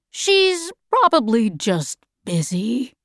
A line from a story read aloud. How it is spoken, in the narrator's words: said in a strange voice